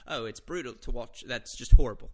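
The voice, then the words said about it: Weak attempt at Australian accent. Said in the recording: “I was about to do an Australian accent ... I don't have an Australian accent in me. I'll workshop it.”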